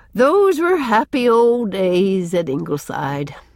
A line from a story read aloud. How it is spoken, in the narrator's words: said Susan with a sigh